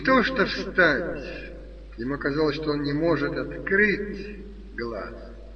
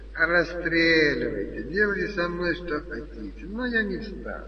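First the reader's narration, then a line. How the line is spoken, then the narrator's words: Languid, barely audible. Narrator (Russian): Стёпа ответил бы томным, чуть слышным голосом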